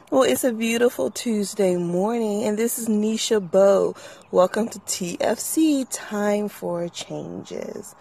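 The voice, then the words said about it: Slightly raspy voice. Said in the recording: “I feel a little raspy in my voice this morning”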